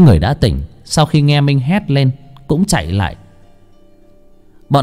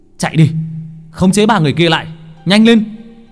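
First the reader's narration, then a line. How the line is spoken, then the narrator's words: Shouted. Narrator (Vietnamese): Mình hét lên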